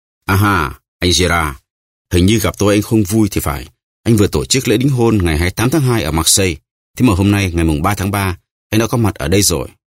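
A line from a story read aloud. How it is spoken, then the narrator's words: Smiling, genial. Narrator (Vietnamese): mỉm cười bảo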